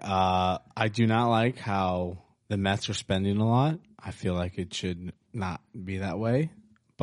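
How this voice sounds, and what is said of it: Slightly raspy voice. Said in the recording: “A little raspy. ... Yeah, a little raspy there.”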